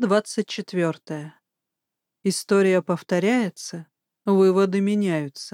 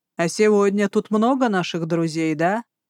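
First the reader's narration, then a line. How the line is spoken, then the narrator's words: Snorting warrior. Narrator (Russian): Хмыкнул воин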